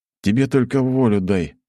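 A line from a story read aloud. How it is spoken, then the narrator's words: Snorting. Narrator (Russian): фыркнул я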